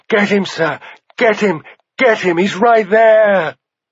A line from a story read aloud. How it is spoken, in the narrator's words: he heard Egg screaming